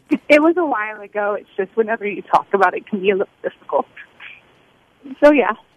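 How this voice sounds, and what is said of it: Emotional, struggling to breathe. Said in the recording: “Try to breathe, honey. Try to breathe. ... I'm a little emotional. ... Just breathe.”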